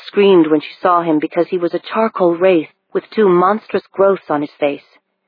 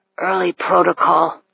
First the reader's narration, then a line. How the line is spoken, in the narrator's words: he rasped